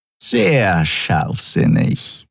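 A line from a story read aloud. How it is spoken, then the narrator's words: Purring close to ear. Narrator (German): schnurrte Shi'ar dicht neben seinem Ohr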